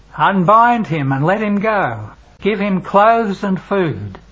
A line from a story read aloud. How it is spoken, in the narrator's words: Jesus shouts in a loud voice